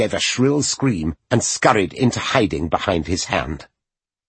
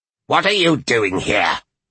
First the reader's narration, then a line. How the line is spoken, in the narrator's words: She snapped